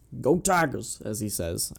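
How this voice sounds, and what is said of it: Imitates another person's voice, badly. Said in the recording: “That was a terrible impression.”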